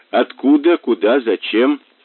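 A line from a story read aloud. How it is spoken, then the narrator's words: Calm question. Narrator (Russian): Мазур спросил спокойно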